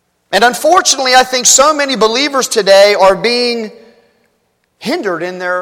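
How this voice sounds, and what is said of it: Usual voice. Nothing is said of it.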